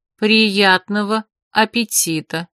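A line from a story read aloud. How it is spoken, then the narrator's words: Flat, colorless voice. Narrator (Russian): пожелала она бесцветным голосом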